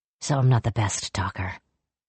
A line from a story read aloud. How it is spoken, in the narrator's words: Jujinta said quietly